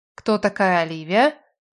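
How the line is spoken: Soft. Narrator (Russian): мягко продолжила

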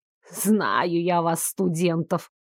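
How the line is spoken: Grumbling mutter. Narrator (Russian): пробурчал целитель

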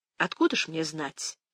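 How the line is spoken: Calm. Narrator (Russian): спокойно заметила она

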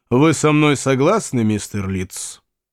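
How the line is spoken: Harsh question. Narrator (Russian): Вульф жестко спросил

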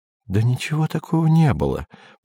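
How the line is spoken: Whisper. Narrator (Russian): продолжала шептать Сельма

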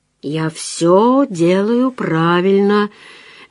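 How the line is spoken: Steady, drowsy self-talk. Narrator (Russian): мерно и немного сонно внушал он себе

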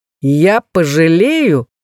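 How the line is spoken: Hearty chuckle. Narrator (Russian): он от души хохотнул

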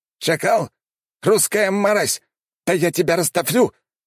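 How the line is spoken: Shouted out. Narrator (Russian): выкрикнул тот

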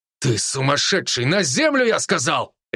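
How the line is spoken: Barked. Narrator (Russian): рявкнул подполковник

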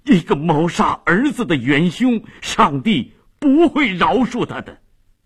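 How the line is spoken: Shocked, grief-stricken shout. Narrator (Chinese): 费迪南异常震惊，悲愤地喊着

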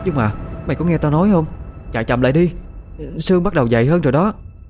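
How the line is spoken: Fearful worried voice. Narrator (Vietnamese): Khoanh liền nói với giọng lo sợ hơn

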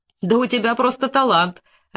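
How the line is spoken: Laughing again. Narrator (Russian): опять засмеялся Коньков

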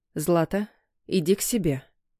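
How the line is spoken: Quiet motherly request. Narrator (Russian): тихо попросила мама

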